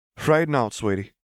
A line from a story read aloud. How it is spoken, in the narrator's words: the bartender said with a small laugh